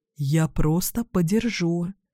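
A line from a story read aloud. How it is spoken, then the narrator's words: Man whispering. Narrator (Russian): шепотом говорит мужчина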